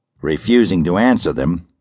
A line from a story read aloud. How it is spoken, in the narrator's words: Operator 5 answered calmly